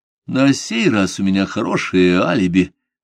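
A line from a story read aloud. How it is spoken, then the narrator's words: Cold young woman's reply. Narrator (Russian): холодно ответила девушка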